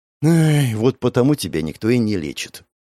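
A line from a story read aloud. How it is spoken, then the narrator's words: Sighing. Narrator (Russian): вздохнул Алонсо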